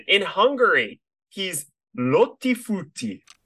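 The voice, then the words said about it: Exaggerated Italian accent. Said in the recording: “pronunciation terrible ... I'm doing like an Italian accent there”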